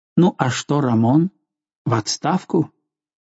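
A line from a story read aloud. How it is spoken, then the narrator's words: Mutter. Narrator (Russian): Он пробормотал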